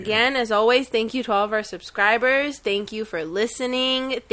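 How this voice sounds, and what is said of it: Sick, under-the-weather voice. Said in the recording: “excuse me for my voice. I'm not feeling so well. I'm a little bit under the weather ... sorry for my voice”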